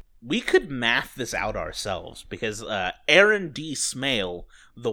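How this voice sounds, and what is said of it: Usual voice. Nothing is said of it.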